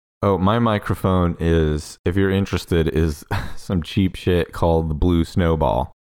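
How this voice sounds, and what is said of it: Good, carrying radio voice. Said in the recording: “has a very good radio voice. So even with a shitty microphone, his voice carries through very well”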